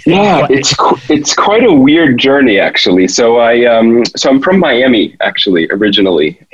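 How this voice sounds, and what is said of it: American accent. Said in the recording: “you obviously have an American accent, or a North American accent.”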